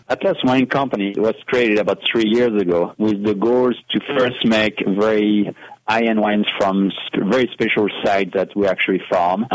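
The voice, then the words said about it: French accent. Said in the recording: “You do, by the way, have an accent. ... Did you have to pay for that accent, or is that natural? ... It's very natural ... If you have a French accent”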